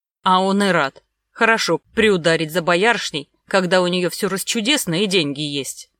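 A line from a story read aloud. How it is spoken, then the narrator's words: Displeased, through teeth. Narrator (Russian): процедил как-то недовольно Магута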